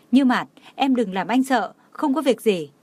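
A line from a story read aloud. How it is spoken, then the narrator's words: Choked, heartbroken calling. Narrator (Vietnamese): Tưởng Thiên Lối, đau lòng nghẹn ngào gọi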